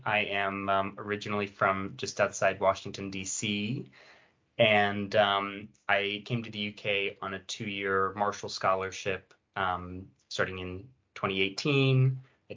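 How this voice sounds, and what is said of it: American accent. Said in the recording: “my American twang”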